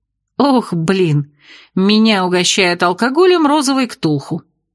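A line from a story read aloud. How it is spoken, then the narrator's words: Giggling. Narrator (Russian): Я хихикнула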